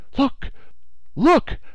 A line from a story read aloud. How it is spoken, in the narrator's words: the Canadian exclaimed, his voice full of excitement